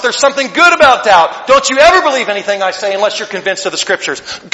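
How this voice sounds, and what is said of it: Loud, yelling preacher delivery. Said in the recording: “I'm yelling way more this afternoon than I usually do.”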